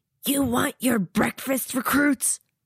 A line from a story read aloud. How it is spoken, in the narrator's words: Laban shouts